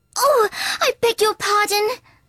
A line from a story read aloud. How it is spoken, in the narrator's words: cried Alice again, for this time the mouse was bristling all over, and she felt certain it must be really offended